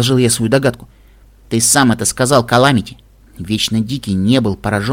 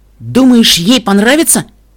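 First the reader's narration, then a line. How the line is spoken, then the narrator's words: Excited question. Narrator (Russian): взволнованно спросила Эпплблум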